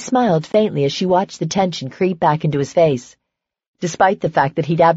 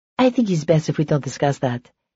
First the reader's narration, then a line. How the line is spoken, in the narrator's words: said in an even tone